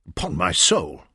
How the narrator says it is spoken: spluttered into his coffee

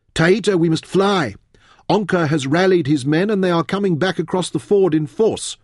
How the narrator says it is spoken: Fen cried

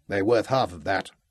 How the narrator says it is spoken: Jonathan grumbling

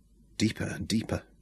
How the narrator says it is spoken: she whispered

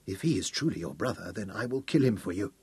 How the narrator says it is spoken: he whispered to Aberley

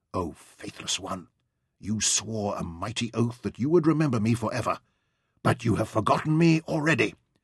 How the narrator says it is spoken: she said in a low voice, muffled by the headcloth that covered her face

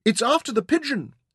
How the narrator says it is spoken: Saffron cried

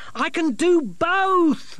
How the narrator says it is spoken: Masklin shouted after her

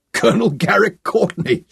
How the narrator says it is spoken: Sean laughed out loud

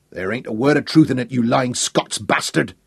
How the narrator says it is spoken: thundered

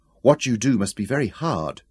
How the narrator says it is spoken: she said

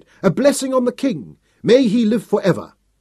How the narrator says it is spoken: they cried

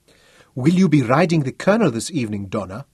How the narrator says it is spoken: the young Matabele sergeant asked eagerly

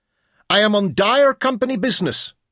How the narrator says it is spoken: Caser shouted again

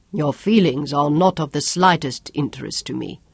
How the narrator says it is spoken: China said

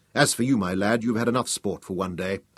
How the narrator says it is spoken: told firmly

